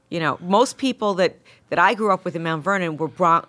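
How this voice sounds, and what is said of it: New York Bronx accent. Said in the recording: “Bronx ... it's the same accent”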